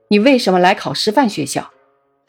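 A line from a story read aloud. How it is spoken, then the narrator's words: Stern sharp question. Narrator (Chinese): 夏先生厉声问他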